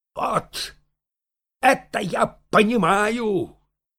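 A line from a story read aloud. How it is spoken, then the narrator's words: Shout. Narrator (Russian): крикнул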